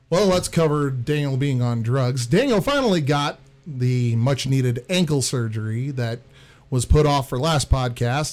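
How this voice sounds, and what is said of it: Hoarse, funky-sounding voice. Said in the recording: “Why is your voice hoarse? ... Why is your voice so funky”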